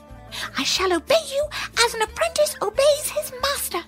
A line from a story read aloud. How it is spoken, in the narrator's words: cried the hare